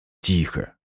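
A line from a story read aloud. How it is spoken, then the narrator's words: Whisper. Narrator (Russian): прошептал я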